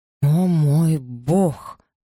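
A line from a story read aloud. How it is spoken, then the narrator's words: Breathless, word by word. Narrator (Russian): выдохнул рядом с Элизой Маргарет, произнося каждое слово как отдельное предложение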